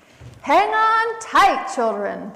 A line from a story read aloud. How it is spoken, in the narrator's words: Possum yelled